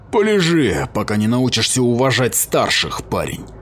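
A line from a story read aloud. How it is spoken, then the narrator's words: Growled. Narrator (Russian): прорычал Кроден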